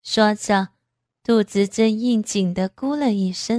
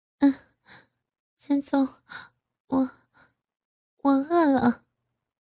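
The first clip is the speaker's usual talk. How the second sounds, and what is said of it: Soft, breathy panting whisper. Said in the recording (Chinese): “小声的喘息道”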